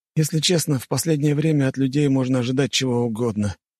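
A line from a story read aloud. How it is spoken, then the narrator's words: Heavy sigh. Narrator (Russian): тяжело вздохнул он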